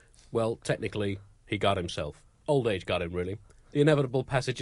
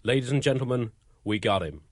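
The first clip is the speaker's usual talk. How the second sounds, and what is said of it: Put-on accent. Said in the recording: “How's my accent there ... I'm trying to blend in ... it's better than it was a week ago, really? But it's still basically racist”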